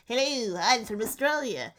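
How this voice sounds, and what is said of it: Cartoonish put-on Australian accent. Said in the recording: “That is the Rocco's Modern Life accent, which is where how I do all of my accents is based on cartoon characters.”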